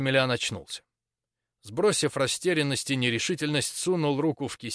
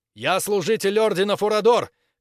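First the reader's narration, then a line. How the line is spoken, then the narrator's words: Loudest possible shout. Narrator (Russian): как можно громче закричал Максимилиан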